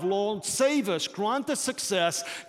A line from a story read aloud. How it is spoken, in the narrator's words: shouted out those words